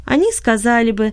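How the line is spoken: Laughing. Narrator (Russian): засмеялась она

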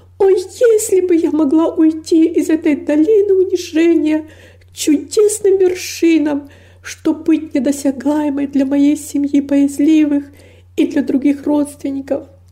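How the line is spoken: Exclaiming with deep longing. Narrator (Russian): воскликнула с невыразимой тоской

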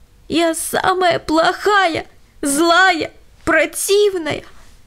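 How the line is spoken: Sobbing. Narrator (Russian): всхлипывала Лена

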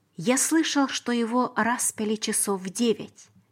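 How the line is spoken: Plain. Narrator (Russian): сказал Иосиф

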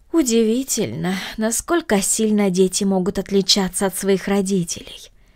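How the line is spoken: Regretful sigh. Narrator (Russian): вздохнула мисс Гридолин с сожалением в голосе

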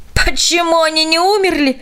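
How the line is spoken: Old woman's exclamation. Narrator (Russian): воскликнула старушка

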